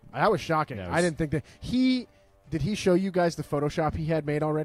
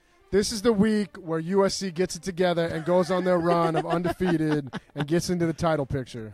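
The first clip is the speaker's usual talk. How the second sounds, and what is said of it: Imitates another person's voice. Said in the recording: “terrible JP impression”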